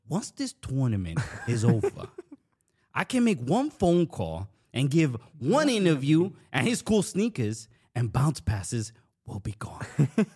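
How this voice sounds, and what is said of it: Put-on New Jersey mafia accent. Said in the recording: “we did it in a Jersey Mafia accent. So I'm going to just do the same thing”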